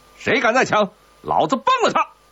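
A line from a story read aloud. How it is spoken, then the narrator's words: Officer shouting. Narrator (Chinese): 军官……嘴里喊着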